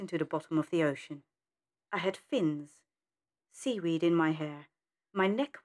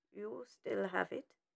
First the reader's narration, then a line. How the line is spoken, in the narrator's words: he murmured